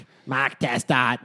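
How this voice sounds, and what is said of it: Put-on Australian accent. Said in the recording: “In my perfect Australian accent ... You sound like Russell Crowe”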